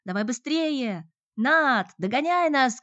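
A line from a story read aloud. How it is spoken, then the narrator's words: Shouting while rushing away. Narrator (Russian): крикнула она, уносясь прочь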